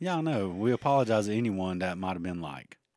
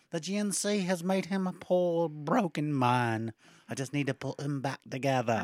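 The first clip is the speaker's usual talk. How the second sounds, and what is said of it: Weird put-on accent. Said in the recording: “weird accent that doesn't make any sense”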